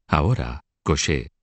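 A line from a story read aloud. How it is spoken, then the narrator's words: Whispered. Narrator (Spanish): le susurró Felipe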